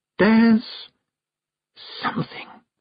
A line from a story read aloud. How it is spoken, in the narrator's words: said Miss Tick very quietly